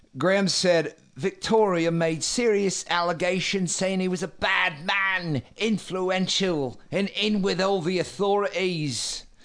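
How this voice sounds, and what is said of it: Poor put-on English accent. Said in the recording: “I like whatever bastardization of an English accent that is.”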